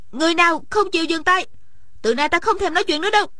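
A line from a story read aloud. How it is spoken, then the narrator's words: Suddenly raised voice. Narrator (Vietnamese): Điền Thanh Văn bỗng cao giọng nói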